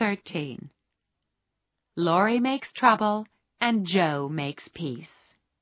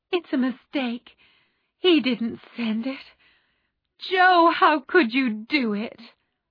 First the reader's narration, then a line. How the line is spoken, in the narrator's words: Meg hid her face in her hands and cried